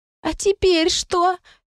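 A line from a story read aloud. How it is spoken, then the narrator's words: Muffled squeak. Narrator (Russian): пискнули из пледа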